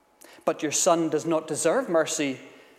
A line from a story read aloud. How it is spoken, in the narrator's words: Napoleon replied